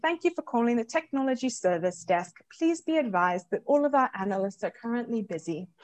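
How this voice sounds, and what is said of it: Put-on British accent. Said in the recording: “give me another accent, one that you can fake, like British”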